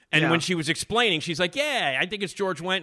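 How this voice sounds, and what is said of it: Strong Chicago accent. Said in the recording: “I got the ridiculous Chicago accent, as you can all hear.”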